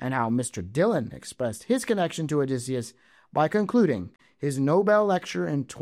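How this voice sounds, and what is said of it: Usual voice. Nothing is said of it.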